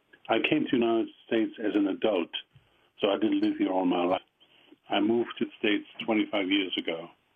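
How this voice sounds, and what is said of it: Strong German accent. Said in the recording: “with a strong German accent.”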